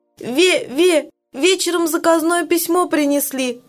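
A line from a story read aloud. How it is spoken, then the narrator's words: Sobbing. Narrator (Russian): рассказывает Галя, всхлипывая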